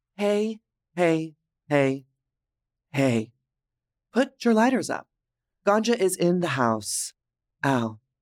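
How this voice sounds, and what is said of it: Texan accent. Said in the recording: “As you can tell from my accent, I am from Dallas, Texas.”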